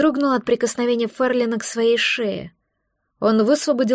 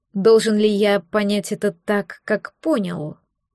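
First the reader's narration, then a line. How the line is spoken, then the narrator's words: Slow. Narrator (Russian): произнес он медленно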